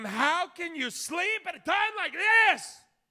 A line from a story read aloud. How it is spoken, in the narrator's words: He shouted it